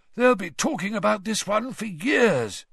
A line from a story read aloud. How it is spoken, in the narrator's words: he said hoarsely